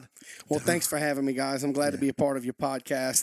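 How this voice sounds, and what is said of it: Southern bayou accent. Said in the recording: “Maybe from down south, maybe from the bayou ... this brother has a different accent than Pastor Jonathan and myself”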